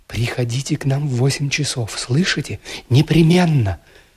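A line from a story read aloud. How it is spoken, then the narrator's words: Quick affectionate whisper. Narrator (Russian): скороговоркой и с прежним ласковым выражением в глазах шепнула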